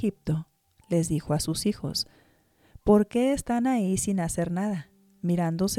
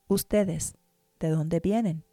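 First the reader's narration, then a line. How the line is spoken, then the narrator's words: Plain. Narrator (Spanish): les preguntó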